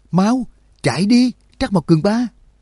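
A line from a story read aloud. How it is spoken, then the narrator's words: Loud desperate yell. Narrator (Vietnamese): Trương Lập không nhẫn nhịn được nữa, lớn tiếng hét lên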